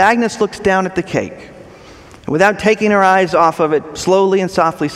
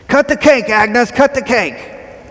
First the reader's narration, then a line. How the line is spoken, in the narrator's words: Everyone cheers and yells